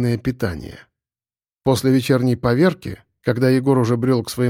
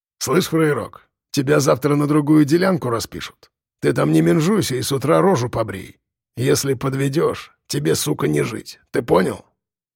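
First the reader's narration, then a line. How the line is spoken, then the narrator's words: Hoarse rapid stranger's voice. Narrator (Russian): Хриплым, простуженным голосом быстро проговорил незнакомец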